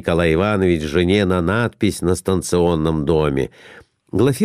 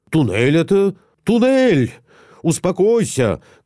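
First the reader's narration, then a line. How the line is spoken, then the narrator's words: Shouting. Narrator (Russian): кричал Николай Иванович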